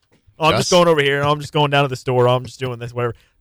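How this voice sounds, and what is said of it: Midwest accent, clipped word endings. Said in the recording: “The accent that I think Midwest people have is they constantly smush words together and they also cut off ends of words ... if there's a T at the end of the word, it's cut off”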